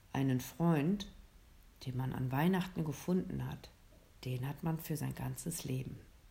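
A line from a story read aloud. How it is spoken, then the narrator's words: Santa whispering. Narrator (German): Der Weihnachtsmann flüsterte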